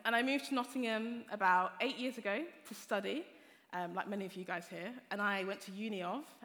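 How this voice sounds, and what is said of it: Southern English accent. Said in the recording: “I'm actually not from Nottingham originally, if you can tell from my accent. I grew up in Hertfordshire”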